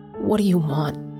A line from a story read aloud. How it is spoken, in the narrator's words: I asked, barely recognizing the croaky whisper that escaped my lips